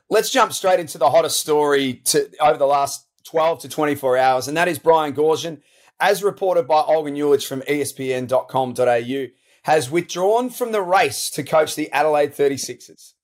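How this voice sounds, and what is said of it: Hoarse, strained, nearly lost voice. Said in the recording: “You can probably just hear it in my voice a little bit. Uh, I'm just about out of voice. I've done too much talking in the last five or six days”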